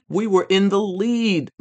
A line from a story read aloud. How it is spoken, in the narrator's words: Mike yelled